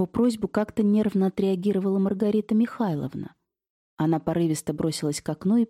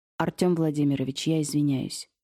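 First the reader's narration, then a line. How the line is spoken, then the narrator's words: Dry. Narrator (Russian): сухо сказал первый муж Алевтины Михайловны, Иннокентий Станиславович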